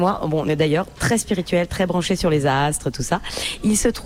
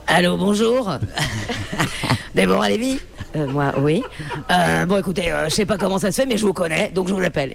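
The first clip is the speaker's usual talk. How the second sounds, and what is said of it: Imitates another person's voice. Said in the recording (French): “Je peux faire ta voix?”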